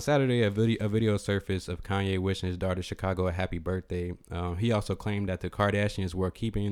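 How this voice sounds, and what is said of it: Usual voice. Nothing is said of it.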